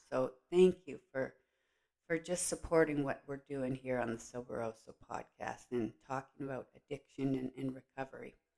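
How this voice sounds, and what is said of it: Rough, sick-sounding voice. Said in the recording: “my voice is a little on the rough side... I am sick. I am dealing with a cold”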